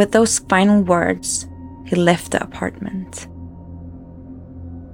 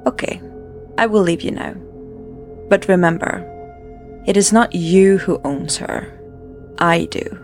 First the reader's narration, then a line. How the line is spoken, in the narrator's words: He said calmly